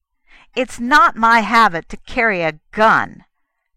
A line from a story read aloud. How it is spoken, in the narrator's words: Kennan snapped